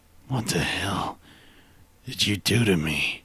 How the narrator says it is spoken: Perry asked again with a low rasp

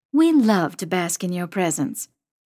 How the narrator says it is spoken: Mom says dryly

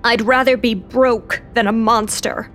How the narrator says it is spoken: Lou growled

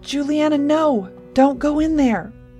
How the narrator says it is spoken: Stanek said desperately

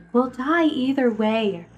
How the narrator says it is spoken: Ruthie said wearily

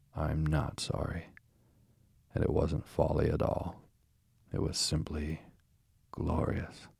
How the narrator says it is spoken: he said a little sullenly, but stoutly

